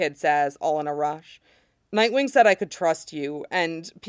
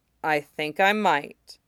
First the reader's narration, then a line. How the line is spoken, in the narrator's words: Theo says slowly